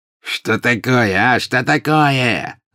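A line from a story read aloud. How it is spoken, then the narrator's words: Angry shout. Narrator (Russian): закричал обозлившийся вдруг пожиратель смерти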